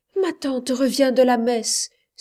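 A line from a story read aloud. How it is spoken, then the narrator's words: Frightened young woman exclaiming. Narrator (French): s'écria la demoiselle tout effrayée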